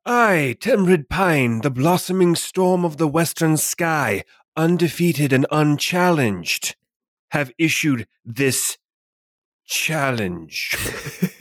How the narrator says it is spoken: Pine will, he will also yell back

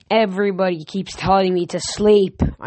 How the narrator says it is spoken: I grumbled

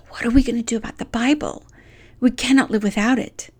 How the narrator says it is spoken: she whispered to Betsy

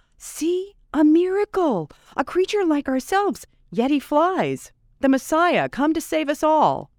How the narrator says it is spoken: the creatures downstream, to who he was a stranger, cried

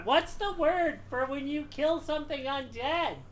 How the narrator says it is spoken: Gebetto yells out

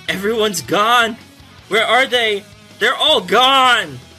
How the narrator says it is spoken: It keeps yelling out

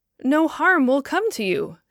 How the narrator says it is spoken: said the apostle in the same kindly tone

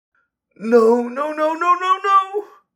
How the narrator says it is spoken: He moaned

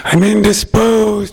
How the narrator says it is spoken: he yells to it loudly

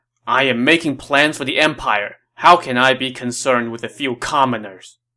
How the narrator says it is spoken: Dong Zhuo snapped

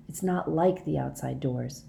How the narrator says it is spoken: whispered

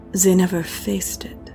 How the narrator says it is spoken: she said uneasily

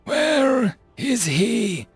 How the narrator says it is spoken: Jason wheezed

